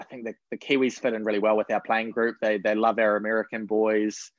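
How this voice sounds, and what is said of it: New Zealand accent. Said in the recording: “hopefully I can hold on to my accent for a little bit longer”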